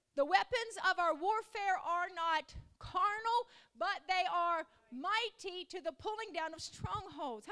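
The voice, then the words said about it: Southern hillbilly accent. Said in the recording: “my hillbilly accent”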